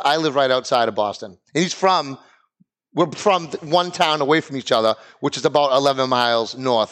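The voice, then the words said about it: Boston accent. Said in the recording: “friends of mine who have the same accent ... you're not from Boston, are you?”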